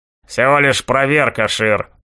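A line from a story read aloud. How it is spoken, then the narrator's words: Smirking grunt. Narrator (Russian): хмыкнул Маклауд, уже виденный мной безымянный гоблин 7-го уровня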